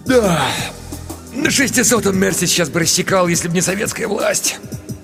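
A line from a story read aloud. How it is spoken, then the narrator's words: Wistful sigh. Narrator (Russian): Ерошкин вздохнул с белогвардейской тоской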